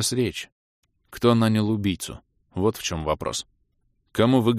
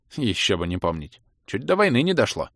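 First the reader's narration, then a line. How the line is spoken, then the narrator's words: Snort. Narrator (Russian): хмыкнул управляющий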